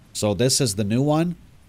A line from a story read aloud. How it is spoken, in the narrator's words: someone said in a low robotic monotone